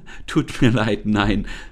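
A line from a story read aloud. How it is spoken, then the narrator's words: Laughing. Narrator (German): lachte Lisa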